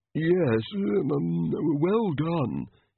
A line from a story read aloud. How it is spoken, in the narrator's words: he mumbled